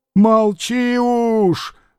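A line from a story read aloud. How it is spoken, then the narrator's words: Old man's rough shout. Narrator (Russian): грубо крикнул на нее старик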